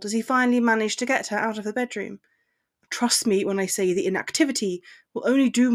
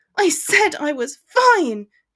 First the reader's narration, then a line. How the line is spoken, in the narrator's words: she shouted